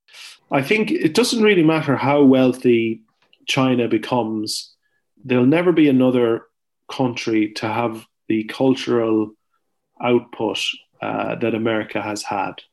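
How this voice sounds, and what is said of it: Irish accent. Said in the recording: “when someone hears my accent, there's a there's a predisposition in the American to go, ah, you're Irish”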